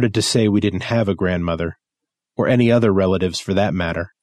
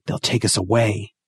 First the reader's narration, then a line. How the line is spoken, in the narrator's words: she whispered